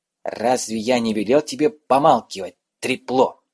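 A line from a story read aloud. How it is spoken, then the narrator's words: Hissing. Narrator (Russian): прошипел он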